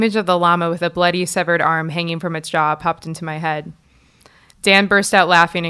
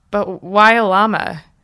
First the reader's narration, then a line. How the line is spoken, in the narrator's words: he sighed and continued